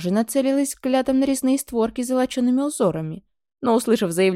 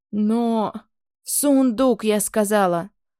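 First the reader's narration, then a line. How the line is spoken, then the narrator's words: Commanding growl. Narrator (Russian): рыкнула девица, точно главнокомандующая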